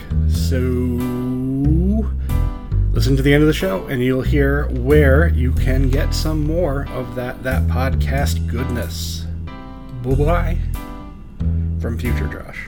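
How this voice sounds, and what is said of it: Radio announcer voice. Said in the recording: “That's a good radio voice.”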